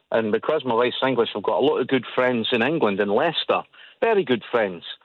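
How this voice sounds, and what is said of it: Scottish Edinburgh accent. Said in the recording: “as you can hear from my voice, I'm Edinburgh, I'm very Scottish”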